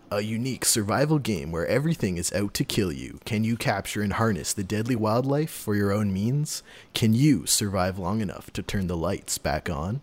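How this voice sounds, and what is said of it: Movie trailer narrator voice. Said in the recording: “do the movie theater voice”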